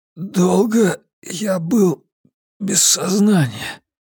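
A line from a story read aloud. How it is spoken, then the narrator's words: Dry hoarse rasp. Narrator (Russian): Облизал пересохшие губы и только тогда прохрипел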